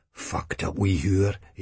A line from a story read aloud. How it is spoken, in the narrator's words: he mutters under his breath, his face freezing in a contemptuous scowl